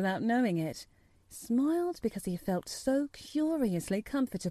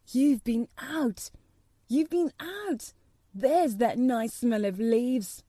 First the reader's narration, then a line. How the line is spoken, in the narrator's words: he cried